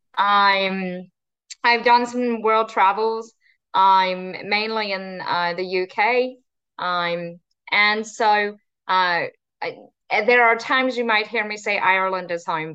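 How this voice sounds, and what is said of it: Non-local, non-Texan accent. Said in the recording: “there's a non-Rockfordian accent ... I claim Texas is home, but nobody ever believes that when they hear my accent”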